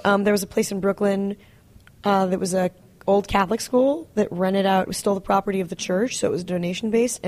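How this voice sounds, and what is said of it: Voice affected by a slight cold. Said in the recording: “Sorry, I'm a little cold. I have a little cold.”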